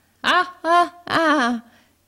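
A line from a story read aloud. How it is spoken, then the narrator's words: Exclaimed. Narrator (Italian): esclamò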